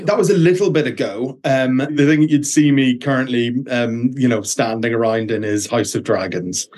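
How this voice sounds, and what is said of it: Irish accent. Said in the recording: “I love your accent. ... So you're an Irish actor.”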